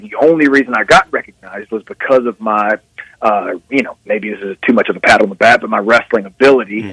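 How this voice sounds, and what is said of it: Southern US accent. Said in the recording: “with a southern accent”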